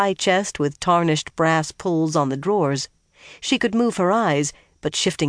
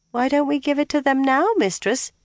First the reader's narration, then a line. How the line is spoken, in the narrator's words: the girl moaned